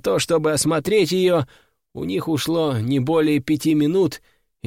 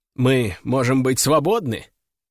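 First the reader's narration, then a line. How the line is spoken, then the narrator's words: Spiteful smirk. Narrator (Russian): злобно усмехаюсь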